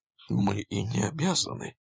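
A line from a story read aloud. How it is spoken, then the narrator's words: Soft reply. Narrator (Russian): мягко ответил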